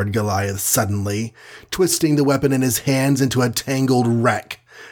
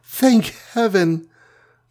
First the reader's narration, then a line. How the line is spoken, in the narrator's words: sobbed the Wasp